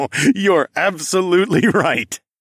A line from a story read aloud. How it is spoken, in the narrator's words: I said with a somewhat evil laugh